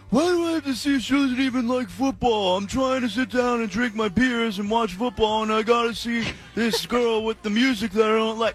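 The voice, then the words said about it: Mocking character voice. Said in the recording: “my impression of misogyny guy”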